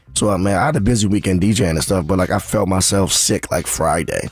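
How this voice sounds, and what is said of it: Hoarse, nearly lost voice. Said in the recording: “That voice sounds crazy... I have no voice... I didn't lose my voice from like hosting and DJing. I think I was sick over the weekend... it took my voice away”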